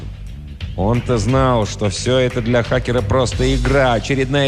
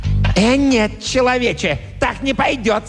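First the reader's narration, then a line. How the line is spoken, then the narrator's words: Angry monster's shriek. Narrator (Russian): со злостью взвизгнул монстр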